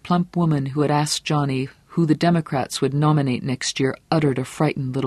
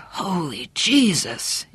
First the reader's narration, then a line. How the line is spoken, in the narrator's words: in a hoarse voice